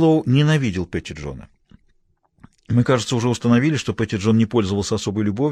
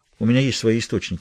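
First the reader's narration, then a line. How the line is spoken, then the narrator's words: Calm reply. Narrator (Russian): спокойно ответил Хэммонд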